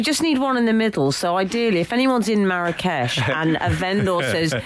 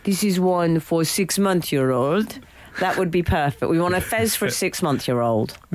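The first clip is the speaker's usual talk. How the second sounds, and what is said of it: Put-on French accent, sounds Welsh. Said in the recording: “I'm going to do a French accent before I get complaints ... was that a French accent from... Aberystwyth”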